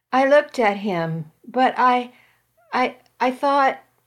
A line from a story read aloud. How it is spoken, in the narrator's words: I stammered